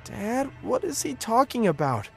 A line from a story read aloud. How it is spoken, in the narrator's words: I asked, my voice trembling